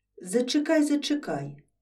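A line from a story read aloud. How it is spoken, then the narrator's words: Nervous. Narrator (Ukrainian): знервовано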